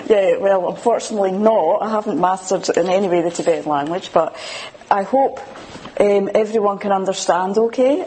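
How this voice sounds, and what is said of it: Scottish accent. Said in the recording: “I've got a funny accent. Scottish.”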